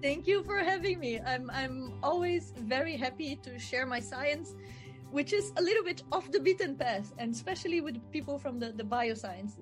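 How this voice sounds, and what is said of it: Brazilian accent. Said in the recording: “this accent that you're hearing, I am from Brazil.”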